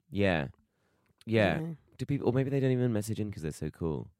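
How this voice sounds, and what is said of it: Slightly croaky, cracking voice. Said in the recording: “I've probably got a slight croak in their voice, which I've also got ... We're sounding like Judi Dench ... similar crack in the voice”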